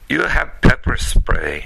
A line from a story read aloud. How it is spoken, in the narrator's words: snorted